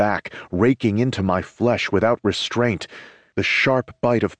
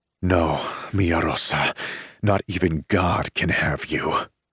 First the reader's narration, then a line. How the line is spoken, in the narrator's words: I growl